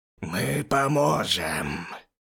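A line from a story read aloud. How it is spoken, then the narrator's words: Old hissing voice from behind. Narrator (Russian): Раздалось со спины старческим и немного шипящим голосом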